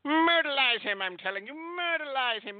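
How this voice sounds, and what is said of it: 1980s cartoon character voice. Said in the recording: “he sounded like a cartoon character from the 1980s”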